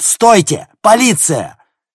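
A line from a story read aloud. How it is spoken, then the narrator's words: Shout. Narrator (Russian): Логан закричал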